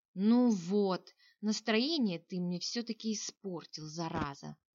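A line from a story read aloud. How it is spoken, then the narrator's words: Sigh. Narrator (Russian): вздохнул Кенрик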